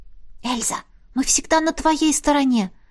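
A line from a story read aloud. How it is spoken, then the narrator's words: Whisper. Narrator (Russian): прошептала Лесли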